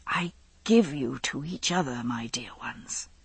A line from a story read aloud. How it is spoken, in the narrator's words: he said softly